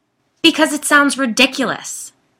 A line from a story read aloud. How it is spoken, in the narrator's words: Shannon yelled